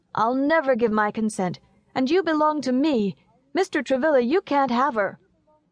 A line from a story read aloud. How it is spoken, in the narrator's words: little Horace cried